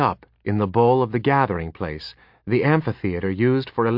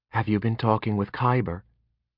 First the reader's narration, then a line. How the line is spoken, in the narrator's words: She asked quietly